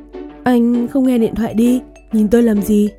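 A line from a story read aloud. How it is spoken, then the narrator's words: Contemptuous smirk. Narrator (Vietnamese): Phong Bình Thìn nhếch mép mỉm cười, ánh mắt đầy vẻ khinh thường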